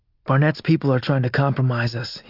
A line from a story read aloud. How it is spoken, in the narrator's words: he said, lowering his voice